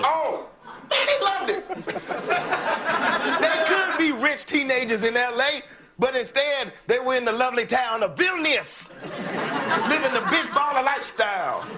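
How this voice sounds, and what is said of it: LeVar Ball impression. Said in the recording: “doing a LeVar Ball impression ... This is a recurring character, but yes, this is LeVar Ball.”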